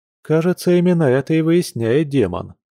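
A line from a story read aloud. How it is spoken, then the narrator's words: Gloomy. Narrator (Russian): мрачно ответил Яр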